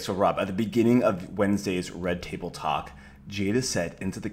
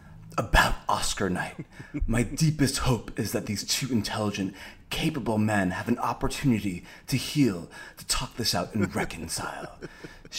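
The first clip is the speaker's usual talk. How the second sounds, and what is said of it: Put-on celebrity quote voice. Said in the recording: “your impersonation is fantastic, although it does sound like every other person that you always do have one voice for celebrity quotes, and that's the voice”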